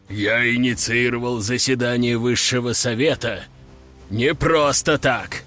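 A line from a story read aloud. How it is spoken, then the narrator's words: Deep bass. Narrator (Russian): пробасил Латник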